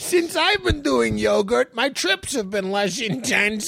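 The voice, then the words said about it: Comedic character voice. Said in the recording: “in a different voice... kind of the same voice as the guy that says”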